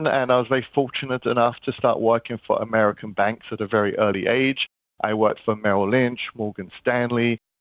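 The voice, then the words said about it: London English accent. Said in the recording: “You can probably tell by my funny accents, I'm not from Kansas. I'm originally from London”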